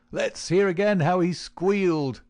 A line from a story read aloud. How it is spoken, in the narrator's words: they cried